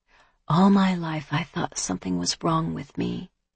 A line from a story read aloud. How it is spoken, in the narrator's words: she whispered softly